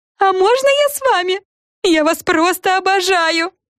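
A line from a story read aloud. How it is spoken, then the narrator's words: Loud yell in ear. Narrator (Russian): Завопила Фрэн прямо в ухо миссис Брю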